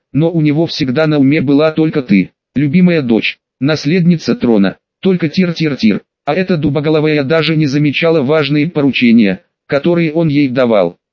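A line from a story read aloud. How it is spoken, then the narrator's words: Calm, composed. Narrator (Russian): Вернув самообладание, спокойно продолжила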